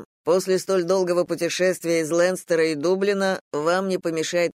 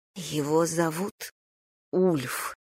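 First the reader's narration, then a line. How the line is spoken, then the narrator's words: Trembling whisper. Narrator (Russian): прошептала та дрожащим голосом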